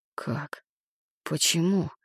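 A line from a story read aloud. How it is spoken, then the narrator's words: Listless mutter. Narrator (Russian): вяло пробормотал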